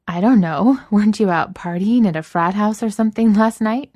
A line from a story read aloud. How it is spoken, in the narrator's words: Enid said, between panting breaths